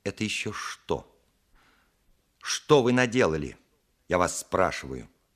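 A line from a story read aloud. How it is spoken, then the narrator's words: Stern. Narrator (Russian): сказала она строго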